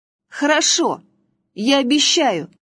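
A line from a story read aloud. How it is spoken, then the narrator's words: Exclaim. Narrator (Russian): воскликнул Василек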